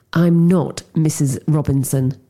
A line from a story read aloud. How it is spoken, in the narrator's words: said through clenched teeth